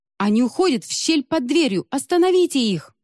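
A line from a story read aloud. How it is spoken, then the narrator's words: Desperate exclamation. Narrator (Russian): в отчаянии воскликнула Хэджу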